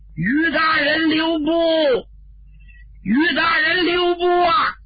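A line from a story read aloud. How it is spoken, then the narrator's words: Shouting at top of lungs. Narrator (Chinese): 有人扯脖子喊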